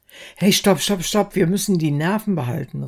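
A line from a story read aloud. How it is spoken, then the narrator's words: Calling out. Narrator (German): rief Harry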